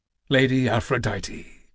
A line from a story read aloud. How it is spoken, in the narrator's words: Kratos murmured